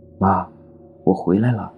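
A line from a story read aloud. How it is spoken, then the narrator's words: Soft sigh, girl. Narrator (Chinese): 姑娘轻轻叹了口气，说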